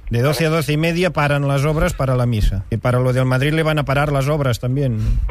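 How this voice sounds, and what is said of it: Slight Catalan accent in Spanish. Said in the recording (Spanish): “Tiene un poco acento catalán”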